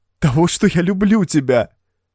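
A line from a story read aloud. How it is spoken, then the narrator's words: Sobbing. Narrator (Russian): Проговорила она сквозь всхлипывание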